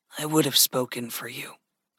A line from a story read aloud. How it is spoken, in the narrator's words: Gregory said softly